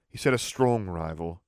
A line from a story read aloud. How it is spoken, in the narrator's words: Harry said dryly